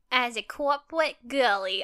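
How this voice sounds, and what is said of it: Attempted Southern accent, unconvincing mix. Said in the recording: “I don't know what the accent was. I think I was trying to go southern, and it just didn't go over well ... That was a mix of something ... It was the Bronx.”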